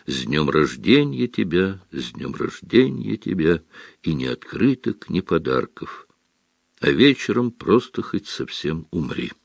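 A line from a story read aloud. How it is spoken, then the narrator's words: Sad singing. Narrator (Russian): грустно запел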